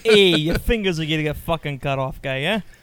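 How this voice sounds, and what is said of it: Put-on Brooklyn New York accent. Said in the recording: “New York accent... Brooklyn accent”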